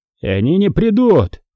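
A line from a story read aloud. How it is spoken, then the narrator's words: Roar over loud din. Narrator (Russian): проревел старшина Галандер, перекрывая грохот вторжения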